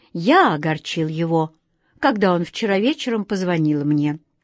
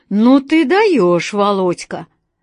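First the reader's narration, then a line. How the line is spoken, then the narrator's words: Loud laughter over phone. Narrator (Russian): Громко рассмеялся кто-то на другом конце провода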